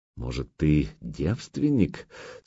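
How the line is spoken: Sultry husky question. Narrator (Russian): с эротичной хрипотцой проинтересовалась Алена

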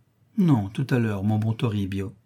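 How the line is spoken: Affectionate but firm woman. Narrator (French): Elle répond d'une voix affectueuse mais ferme

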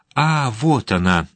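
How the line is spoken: Glad exclamation. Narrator (Russian): обрадованно воскликнул Пейн

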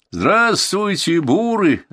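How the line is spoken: Booming shout. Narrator (Russian): зычно крикнул сержант

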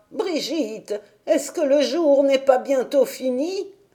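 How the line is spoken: Exclaimed. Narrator (French): elle s'écriait

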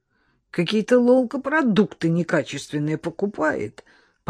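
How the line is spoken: Grumbling. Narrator (Russian): проворчал Леня

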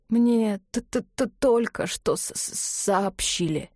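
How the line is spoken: Breathless exhale. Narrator (Russian): не сказал, а выдохнул

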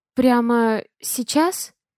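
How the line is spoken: Muttering, desire mixed with fear. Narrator (Russian): Бормочу я, чувствуя, как к желанию примешивается страх

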